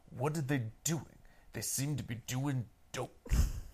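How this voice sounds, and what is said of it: Imitates another person's voice. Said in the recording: “gonna do my Lance Reddick voice. ... I'm just trying to do your voice. It's not working. ... I think that was really spot on.”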